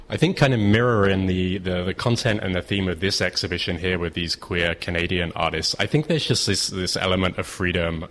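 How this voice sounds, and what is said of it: Slight English accent. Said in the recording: “I hear a slight English lilt in that accent.”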